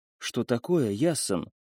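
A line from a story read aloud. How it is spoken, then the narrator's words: Whisper. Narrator (Russian): прошептала она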